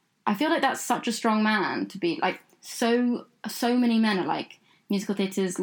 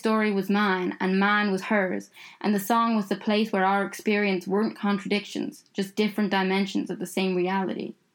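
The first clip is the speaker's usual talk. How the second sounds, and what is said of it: Put-on Southern American accent. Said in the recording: “you gave him a Southern American accent.”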